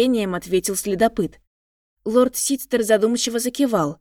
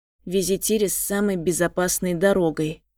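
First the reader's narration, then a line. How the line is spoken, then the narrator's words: Quiet voice. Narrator (Russian): тихо проговорил лорд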